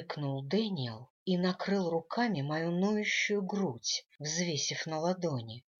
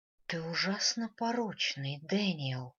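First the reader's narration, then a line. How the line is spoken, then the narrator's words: Whispering. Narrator (Russian): прошептала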